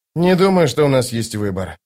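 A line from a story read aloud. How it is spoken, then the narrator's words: Sigh. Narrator (Russian): вздохнул Остряк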